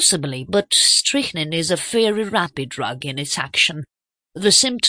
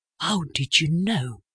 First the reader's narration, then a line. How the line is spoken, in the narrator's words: whispered